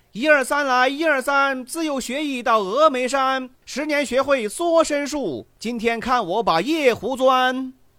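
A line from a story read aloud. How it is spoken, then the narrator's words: Loud hollering. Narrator (Chinese): 扯着嗓子高声喊道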